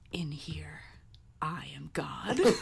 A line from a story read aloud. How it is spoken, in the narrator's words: He whispered